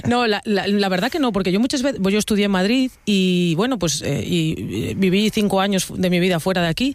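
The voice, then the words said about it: Regional Spanish accent. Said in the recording (Spanish): “por este acento que tengo que de cualquier manera ya me saquen de donde soy”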